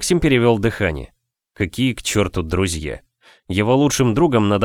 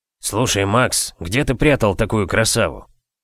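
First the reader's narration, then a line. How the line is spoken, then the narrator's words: Whispered in ear. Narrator (Russian): шепнул ему на ухо Лёшка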